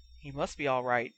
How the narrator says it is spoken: he whispered to Harry

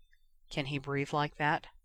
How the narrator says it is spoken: Harry asked quietly

